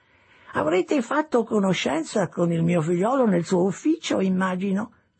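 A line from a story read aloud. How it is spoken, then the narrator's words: Old man's chirping voice. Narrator (Italian): disse il vecchio con la sua voce pigolante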